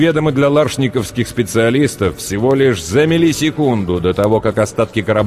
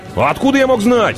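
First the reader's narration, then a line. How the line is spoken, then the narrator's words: Snapping retort. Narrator (Russian): огрызнулся Джакс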